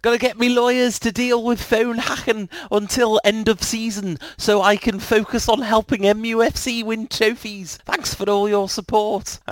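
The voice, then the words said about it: Poor imitation of another person's voice. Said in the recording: “That's a terrible, terrible Wayne Rooney impression... That's how he talks in my head.”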